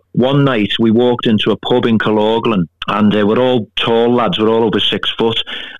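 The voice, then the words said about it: Scouse Liverpool accent. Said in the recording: “my Scouse accent”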